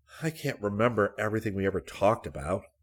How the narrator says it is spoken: Rick muttered to himself

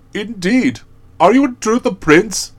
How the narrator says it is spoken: exclaimed the monarch

